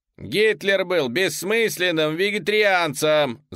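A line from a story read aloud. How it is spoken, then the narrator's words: Shouting. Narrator (Russian): закричал я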